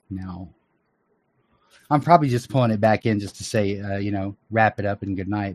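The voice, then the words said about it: Worn, strained voice. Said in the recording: “my voice is a little cooked”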